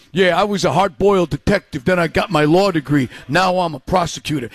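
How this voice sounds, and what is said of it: Exaggerated bad New York accent. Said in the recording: “he does this New York accent. ... it's the worst New York accent ever”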